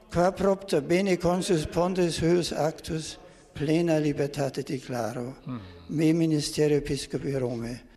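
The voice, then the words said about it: German accent. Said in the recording (Catalan): “aquest accent alemany”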